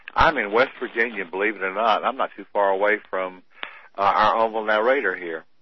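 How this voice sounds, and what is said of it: Southern American accent. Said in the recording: “maybe my accent betrayed me... You sound very much southern”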